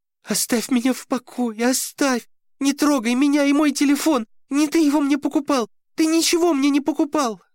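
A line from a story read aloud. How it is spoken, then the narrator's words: Helpless sobbing, young woman. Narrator (Russian): Беспомощно рыдала девушка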